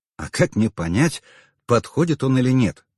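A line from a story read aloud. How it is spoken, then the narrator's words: Calm question. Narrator (Russian): спокойно поинтересовался я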